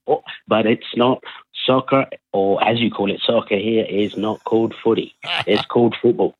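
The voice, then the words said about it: Slight northeast London accent. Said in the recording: “I can detect a little bit of an accent there ... From northeast London”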